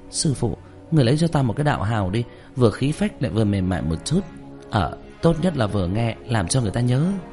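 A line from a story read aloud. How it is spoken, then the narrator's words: Pleading. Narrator (Vietnamese): Trương Tiểu Nhị năn nỉ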